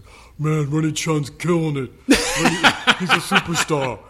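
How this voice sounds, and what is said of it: Imitates another person's voice. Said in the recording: “my Lawrence impression.”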